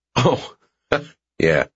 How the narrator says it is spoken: I laugh

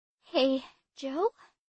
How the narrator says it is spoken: breathed Abby

